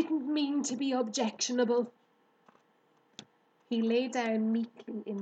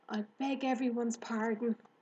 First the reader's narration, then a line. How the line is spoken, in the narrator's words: whispered Wilbur